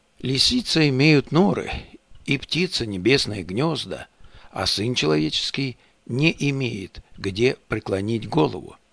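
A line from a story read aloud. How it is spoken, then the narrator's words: Warm, sincere voice. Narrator (Russian): Иисус Христос также сердечным и искренним голосом сказал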